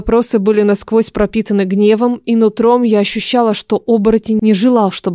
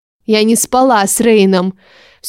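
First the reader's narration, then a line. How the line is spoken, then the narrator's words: Angry reply. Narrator (Russian): ответила тоже зло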